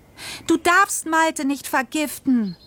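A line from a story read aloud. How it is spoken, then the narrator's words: Screaming. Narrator (German): schrie ich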